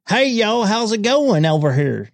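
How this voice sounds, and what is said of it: Exaggerated hick Southern accent. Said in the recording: “with that hick style accent”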